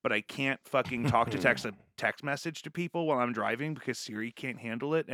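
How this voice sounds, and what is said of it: Articulate, neutral American accent. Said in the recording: “you're like an articulate person with a pretty neutral American accent”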